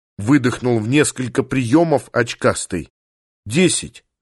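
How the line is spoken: Plain. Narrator (Russian): сказал

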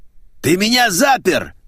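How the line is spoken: Yell. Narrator (Russian): заорал

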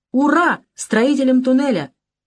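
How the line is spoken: Crowd shouting. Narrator (Russian): И все закричали

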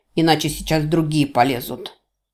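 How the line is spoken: Pained furious bark. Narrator (Russian): рявкнул осатаневший от боли Инига

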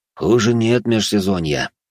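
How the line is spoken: Grumbling. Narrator (Russian): проворчал Морозов

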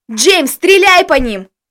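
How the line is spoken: Shout. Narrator (Russian): закричал мне Костя

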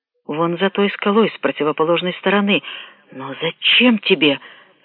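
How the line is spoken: Trembling mumble. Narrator (Russian): дрожащим голосом пробормотала она

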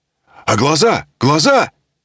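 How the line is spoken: Shouting. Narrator (Russian): закричал Коля

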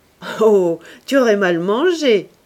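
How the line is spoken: Laughing retort. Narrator (French): répliqua-t-il en riant

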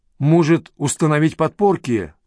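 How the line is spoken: Shouted. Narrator (Russian): крикнула она Ю

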